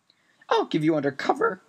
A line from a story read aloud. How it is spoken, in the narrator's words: cried Mrs